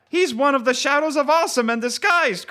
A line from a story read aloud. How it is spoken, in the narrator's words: cried a woman